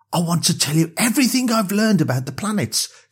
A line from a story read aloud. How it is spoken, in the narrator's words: she said excitedly